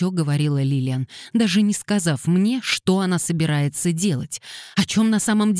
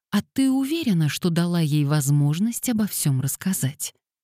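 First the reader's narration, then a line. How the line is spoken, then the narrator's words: Gentle interruption. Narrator (Russian): мягко перебила подругу Аннабелла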